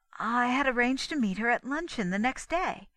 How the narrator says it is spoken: she continued hastily

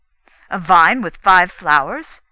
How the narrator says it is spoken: exclaimed the red dwarf

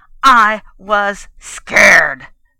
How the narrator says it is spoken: Trigger snarled

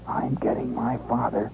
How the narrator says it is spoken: Schwartz leaned into the wind and hissed

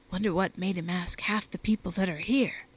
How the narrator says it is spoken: replied, in the same key, adding in a whisper

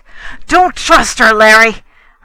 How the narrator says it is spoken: I cried

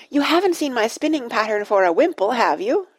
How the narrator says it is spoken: shouted Dulcibel

